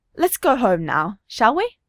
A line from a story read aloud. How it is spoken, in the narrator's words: she says, her tone falsely cheerful